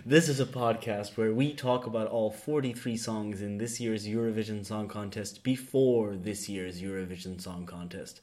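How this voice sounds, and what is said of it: Low, smooth, silky radio voice. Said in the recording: “My radio voice? ... my smooth, silky tones ... as I talk in this low tone”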